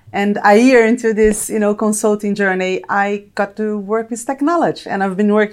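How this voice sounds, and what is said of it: Brazilian-accented English. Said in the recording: “probably you can tell from my accent, Brazilian and Italian, born and raised in Brazil”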